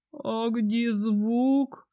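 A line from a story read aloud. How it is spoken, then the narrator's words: Disappointed drawl. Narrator (Russian): разочарованно протянул Рейн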